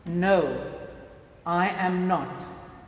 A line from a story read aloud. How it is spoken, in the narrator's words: Peter answered